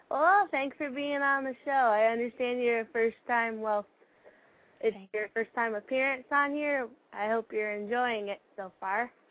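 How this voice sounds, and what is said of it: Midwestern American accent. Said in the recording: “Midwestern accent”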